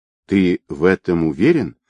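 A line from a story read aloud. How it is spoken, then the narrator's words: Quiet question. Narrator (Russian): негромко спросила Нелли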